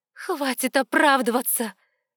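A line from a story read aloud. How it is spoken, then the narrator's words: Angry exclamation. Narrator (Russian): воскликнула я, не понимая, откуда во мне этот гнев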